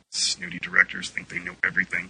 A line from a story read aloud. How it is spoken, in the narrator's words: Kismet grumbled